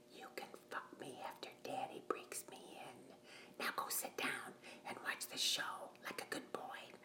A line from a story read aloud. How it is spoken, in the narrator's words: I whispered in his ear